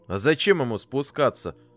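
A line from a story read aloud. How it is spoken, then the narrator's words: Angry question. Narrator (Russian): спросил сердито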